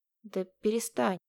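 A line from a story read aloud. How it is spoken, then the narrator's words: Uncertain. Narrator (Russian): неуверенно произнес Кирилл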